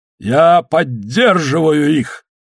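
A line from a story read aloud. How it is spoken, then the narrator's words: Booming. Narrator (Russian): прогремел дон Алехандро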